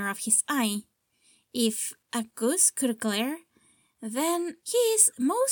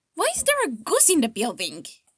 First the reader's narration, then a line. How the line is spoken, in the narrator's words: He yells